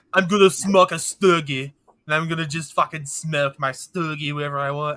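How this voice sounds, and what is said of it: Poor fake Eastern European-like accent. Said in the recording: “I don't even know what kind of fucking accent that was ... It sounded like you were trying to do Kevin Arnold, but you gave up halfway ... That was awful ... like a fake Eastern European ... I turned like into a random fucking like Swedish guy”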